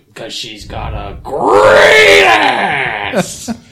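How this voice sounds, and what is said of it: Loud yelled impression of an actor. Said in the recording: “I can do a really good impression of this scene, but I don't want to blow out all of our listeners' ears ... because we're all yelling ... Hey, it's Pacino.”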